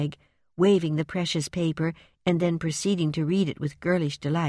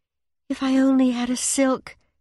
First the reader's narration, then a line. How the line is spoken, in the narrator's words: sighed Meg